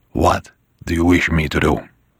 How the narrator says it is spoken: Buonasera whispered

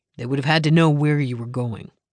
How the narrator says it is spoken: Anson said, his voice devoid of all emotion

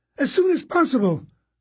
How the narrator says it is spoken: Constance cried

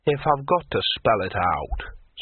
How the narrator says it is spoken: said the troll testily

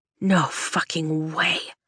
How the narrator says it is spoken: Dane whispers, but it reverberates in my bones like a lightning strike

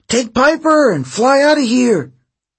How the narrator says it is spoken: he screamed

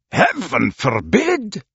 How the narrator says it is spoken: exclaimed Stuart

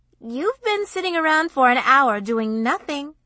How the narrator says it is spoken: she accused him cheerfully

